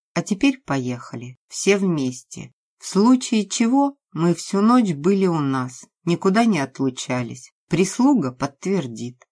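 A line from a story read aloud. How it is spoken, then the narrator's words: Calm. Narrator (Russian): спокойно сказала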